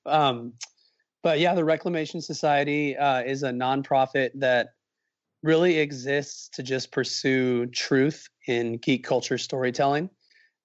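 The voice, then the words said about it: Strained voice while recovering. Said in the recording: “apologize for my voice, by the way. I'm recovering for something here”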